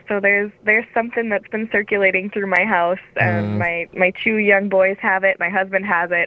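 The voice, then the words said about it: Congested, sore-throated voice. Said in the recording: “I have a cold ... I woke up this morning with a sore throat”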